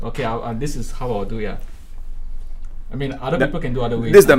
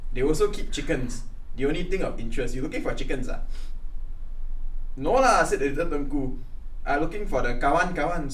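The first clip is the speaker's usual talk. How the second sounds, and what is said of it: Put-on Singlish accent, somewhat too proper. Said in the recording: “As Singlish as you can make little prince. ... But a bit amo lah you, but a bit your accent. ... you still too amo eh. ... The accent is a bit still. ... You're too proper.”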